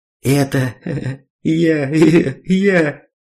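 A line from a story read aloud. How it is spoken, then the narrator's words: Articulate, after laughing. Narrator (Russian): Жмых наконец отсмеялся и членораздельно проговорил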